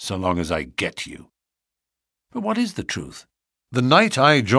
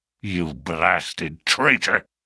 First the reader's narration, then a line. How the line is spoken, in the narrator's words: hissed McGinty through his closed teeth